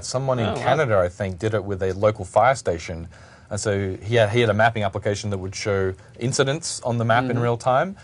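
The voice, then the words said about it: Australian accent. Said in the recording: “for all those American people who don't understand my accent ... He's wearing an Australian microphone.”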